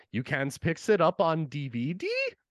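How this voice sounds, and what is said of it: Cartoon character impression. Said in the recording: “I have to do my Toki impression”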